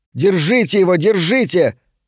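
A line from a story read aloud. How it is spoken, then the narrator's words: Shouting after someone. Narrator (Russian): Берг вслед кричала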